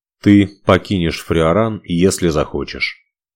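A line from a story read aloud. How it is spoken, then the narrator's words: Calm retort. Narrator (Russian): спокойно парировал он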